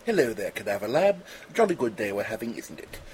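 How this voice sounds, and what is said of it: Exaggerated proper British accent. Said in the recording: “a proper British accent”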